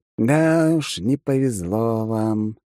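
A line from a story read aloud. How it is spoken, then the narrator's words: Lazy drawl, man. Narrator (Russian): лениво протянул мужчина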